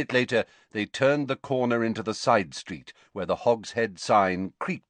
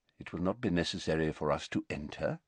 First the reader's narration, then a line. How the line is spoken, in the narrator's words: muttered Dumbledore